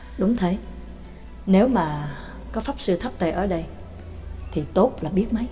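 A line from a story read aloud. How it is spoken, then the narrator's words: Sighing. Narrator (Vietnamese): Cũng không nén được tiếng thở dài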